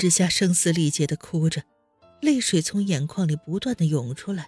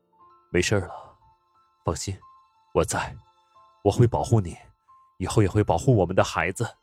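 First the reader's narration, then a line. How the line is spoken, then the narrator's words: Soft, tender. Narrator (Chinese): 宋时清 柔声的说道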